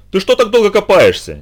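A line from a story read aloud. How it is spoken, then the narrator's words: Impatient shout. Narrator (Russian): нетерпеливо крикнул Инд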